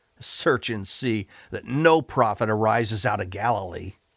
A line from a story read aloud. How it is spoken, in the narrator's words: those leaders mockingly said to Nicodemus